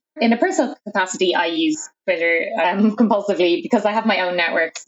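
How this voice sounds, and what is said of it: Irish accent. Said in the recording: “You might notice from my accent that I'm Irish”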